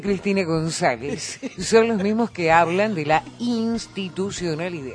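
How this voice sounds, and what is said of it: Female FM radio announcer voice. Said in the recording (Spanish): “voz de locutora de FM”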